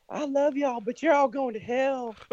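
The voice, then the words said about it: Sweet Southern belle accent. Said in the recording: “sweet Southern Belle accent”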